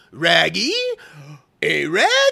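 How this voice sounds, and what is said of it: Scooby-Doo cartoon dog voice. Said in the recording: “my other impersonation of the Scooby-Doo ... That's about as best I can do with that”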